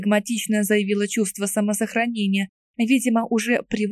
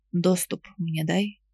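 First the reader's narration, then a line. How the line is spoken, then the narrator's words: Barely audible whisper, bird. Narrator (Russian): зашептала птица на грани слышимости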